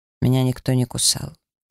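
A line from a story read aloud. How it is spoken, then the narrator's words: Quick, displeased. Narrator (Russian): он недовольно нахмурился и быстро произнес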